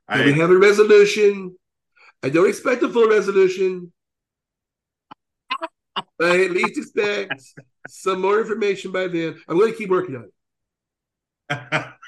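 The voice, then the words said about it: Imitates another person's voice, with pauses. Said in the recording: “such a great Donald Trump. ... Impersonation. ... You have to do the pauses. The Trump is not just the voice, it's the pauses.”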